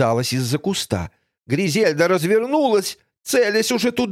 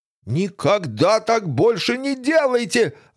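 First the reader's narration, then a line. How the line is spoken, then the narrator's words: Yelling. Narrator (Russian): орал шериф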